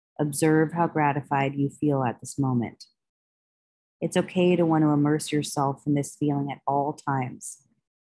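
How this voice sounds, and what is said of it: Soothing, calm voice. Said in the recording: “The sound of my voice is soothing.”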